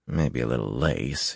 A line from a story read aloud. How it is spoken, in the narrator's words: he muttered